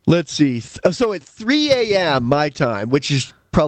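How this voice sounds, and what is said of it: Usual voice. Nothing is said of it.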